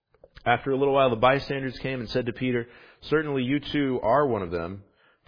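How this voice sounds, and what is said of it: New Jersey accent. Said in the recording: “My accent betrays me every once in a while. You know, I try my best to get my I's and my E's as separate sounds when I preach because I'm in New Jersey”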